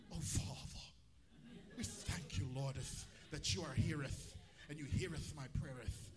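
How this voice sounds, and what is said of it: Mock British accent, archaic prayer. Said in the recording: “all of a sudden they have a British accent.”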